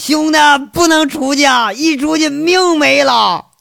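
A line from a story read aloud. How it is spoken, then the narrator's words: Shouting. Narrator (Chinese): 一边还喊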